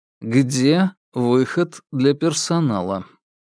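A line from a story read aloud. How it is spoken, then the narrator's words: Indifferent repetition. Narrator (Russian): безразличным тоном повторил парень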